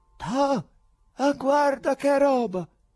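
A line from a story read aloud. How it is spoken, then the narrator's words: Exclaimed. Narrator (Italian): uno di loro che esclamò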